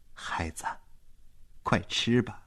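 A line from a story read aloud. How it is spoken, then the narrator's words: Soft coaxing. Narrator (Chinese): 马尔塔大婶才轻声地劝他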